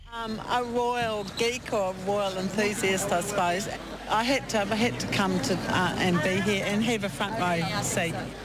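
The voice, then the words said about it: New Zealand accent. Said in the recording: “a New Zealand accent of the week ... a New Zealander”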